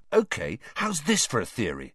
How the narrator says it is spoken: said Ron excitedly

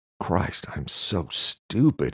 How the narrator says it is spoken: whispered, on the verge of tears

